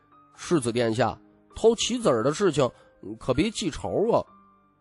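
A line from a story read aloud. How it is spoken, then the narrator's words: Soft, quiet. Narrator (Chinese): 洪启相轻声道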